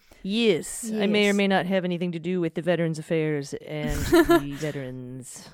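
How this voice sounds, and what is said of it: Mocking incel-style character voice. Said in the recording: “talking like an incel ... That's the voice that you do when things are somewhat, you know, muddied.”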